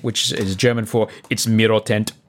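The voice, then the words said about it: Bad put-on German accent. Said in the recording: “That's a terrible German accent.”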